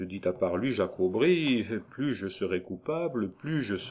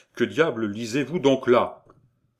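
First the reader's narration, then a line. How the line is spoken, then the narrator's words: Law clerk exclaiming. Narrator (French): s'écria le basochien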